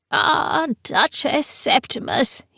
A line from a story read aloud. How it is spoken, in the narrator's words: he said in a tweedling old voice